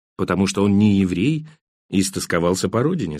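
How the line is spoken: Plain. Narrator (Russian): сказал Кан

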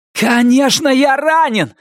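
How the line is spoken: Yell. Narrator (Russian): заорал Норрис

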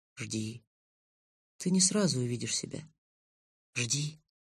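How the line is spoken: Quiet speech. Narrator (Russian): солнечного котенка, который тихо сказал

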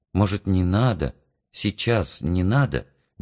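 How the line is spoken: Hesitant mother. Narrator (Russian): неуверенно сказала мама

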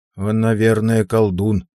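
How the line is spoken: Muttering. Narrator (Russian): пробормотал мой батрак Сигурд

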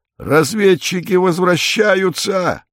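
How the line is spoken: Joyful shout. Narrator (Russian): Иван Иванович радостно заорал

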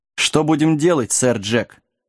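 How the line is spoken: Grim question. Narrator (Russian): мрачно поинтересовался Лоренс

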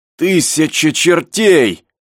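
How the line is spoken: Shouted. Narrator (Russian): закричал Пенкроф

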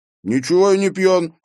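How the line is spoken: Angry retort. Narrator (Russian): сердито возразил Эйстин

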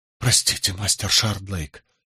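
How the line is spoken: Embarrassed mumble. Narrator (Russian): смущенно пробормотал Скамблер

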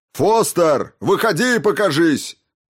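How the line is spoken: Shouting. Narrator (Russian): прокричал Хокинс

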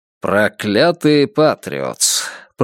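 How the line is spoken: Grumbling mutter. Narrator (Russian): пробурчал он

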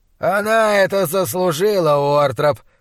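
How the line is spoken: Growling. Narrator (Russian): прорычал Чандлер

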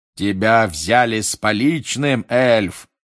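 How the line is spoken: Roared. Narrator (Russian): проревел мистер Дигори

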